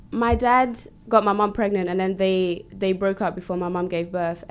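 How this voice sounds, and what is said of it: Nervous-sounding voice. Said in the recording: “I sound so nervous.”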